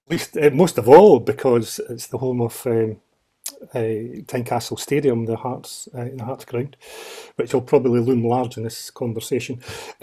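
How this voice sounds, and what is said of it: Scottish Edinburgh accent. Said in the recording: “My accent might betray, I'm from Edinburgh, born and bred in Edinburgh”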